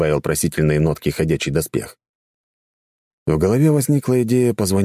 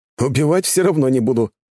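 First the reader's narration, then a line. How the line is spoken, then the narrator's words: Wry snort. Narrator (Russian): хмыкнул я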